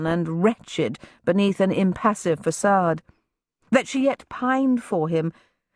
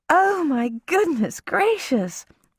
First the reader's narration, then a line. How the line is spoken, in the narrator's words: exclaimed Mrs